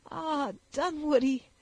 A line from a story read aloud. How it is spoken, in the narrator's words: added the sobbing girl